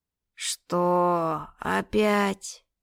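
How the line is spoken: Long-suffering drawl through yawn. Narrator (Russian): сквозь длинный зевок страдальчески протянул мой муж

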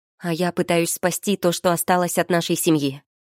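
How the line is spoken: Barked. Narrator (Russian): рявкнула она

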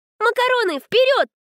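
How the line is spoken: Squealed. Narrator (Russian): Взвизгнула Света

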